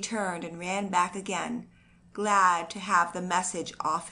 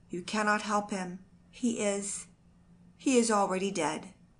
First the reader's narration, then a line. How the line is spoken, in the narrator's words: said the messenger in an unsteady voice